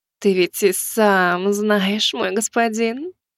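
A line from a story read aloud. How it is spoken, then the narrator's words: Purring. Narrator (Russian): промурлыкала Азимандия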